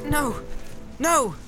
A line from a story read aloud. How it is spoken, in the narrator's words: cried Frodo